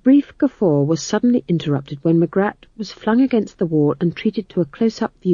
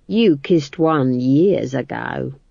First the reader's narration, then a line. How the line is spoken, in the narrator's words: he said, in the slow, ripe tones of one who thinks that what he's about to say next is going to be incredibly funny